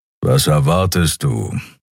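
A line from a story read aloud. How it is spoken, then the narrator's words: Grumbling. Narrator (German): brummte Keru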